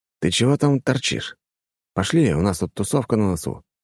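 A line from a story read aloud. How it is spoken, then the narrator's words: Whisper. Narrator (Russian): прошептал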